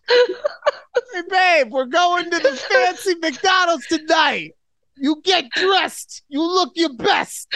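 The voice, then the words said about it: Put-on New York accent. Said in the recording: “what is this accent? ... when I yell at a female, I like to sound New York.”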